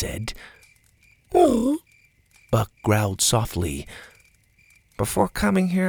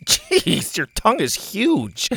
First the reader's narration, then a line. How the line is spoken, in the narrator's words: Bo laughed